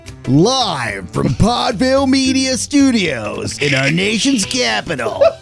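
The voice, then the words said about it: Announcer voice. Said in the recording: “Do you do an announcer voice?”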